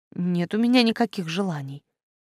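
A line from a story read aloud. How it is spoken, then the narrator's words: Forced out reluctantly. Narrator (Russian): Я выдавила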